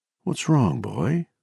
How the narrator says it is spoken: she murmured

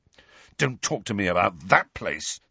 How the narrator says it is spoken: said Harry fiercely

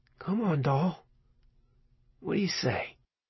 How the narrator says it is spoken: He murmured under his breath

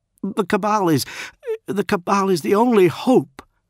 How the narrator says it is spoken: Grammaticus pleaded

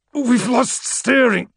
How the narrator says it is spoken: the captain said, his voice ragged with pain

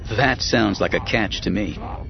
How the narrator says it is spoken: Luke said

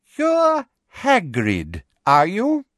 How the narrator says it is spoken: she said, slowly and loudly, as though speaking to somebody deaf

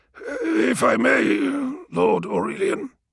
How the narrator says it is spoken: rasped Malachurst

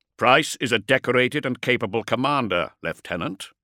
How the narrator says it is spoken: Kulik said sternly

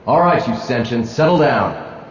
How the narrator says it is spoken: roared Mako Spence

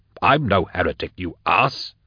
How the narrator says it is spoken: he snapped

